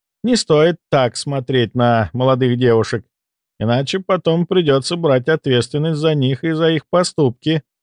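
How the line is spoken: Laughing, with menace. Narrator (Russian): рассмеялась Льял, но в этот раз в ее улыбке мелькнул опасный оскал

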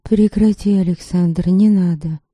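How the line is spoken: Calm. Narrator (Russian): Лиля впервые говорила так спокойно

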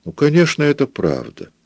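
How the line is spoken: Tender. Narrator (Russian): ласково сказала Пилар

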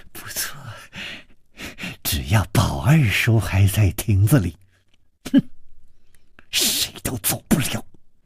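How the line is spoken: Malicious smile. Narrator (Chinese): 施少奶奶的嘴角也泛起了一丝恶意的微笑，说

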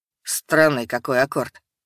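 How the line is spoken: Muttered. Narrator (Russian): пробормотал он

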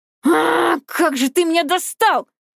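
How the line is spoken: Yelling. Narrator (Russian): заорала я

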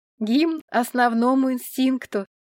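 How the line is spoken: Laughing. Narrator (Russian): засмеялась Тая

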